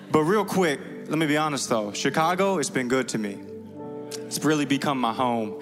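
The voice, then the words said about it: Slight southern twang. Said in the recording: “a little southern twang”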